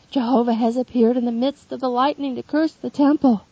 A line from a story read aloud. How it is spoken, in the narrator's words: Some exclaim